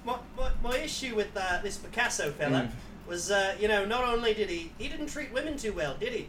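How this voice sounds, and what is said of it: Put-on Australian accent. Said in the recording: “do an impression of what that would be. A woke Australian Nazi. ... Do an impression of a woke Australian Nazi.”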